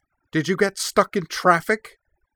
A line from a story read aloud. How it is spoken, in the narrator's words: he demanded, his voice slightly shrill with mounting alarm